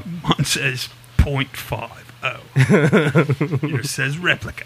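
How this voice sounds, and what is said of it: Poor Vinnie Jones impression. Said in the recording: “that's the worst impression I've ever done of anybody ... Vinnie Jones”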